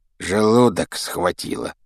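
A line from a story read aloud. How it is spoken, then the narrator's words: Grumbling mutter. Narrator (Russian): пробурчал Рон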